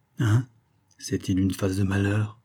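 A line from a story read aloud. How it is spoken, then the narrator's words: Murmured. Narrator (French): murmura-t-elle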